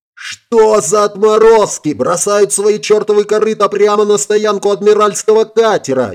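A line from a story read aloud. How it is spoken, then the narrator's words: Breathless yelling. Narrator (Russian): Еле переведя дух, заорал он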